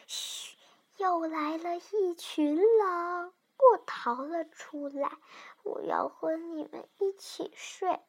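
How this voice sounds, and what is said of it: Soft, whispered voice. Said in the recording (Chinese): “小声地说”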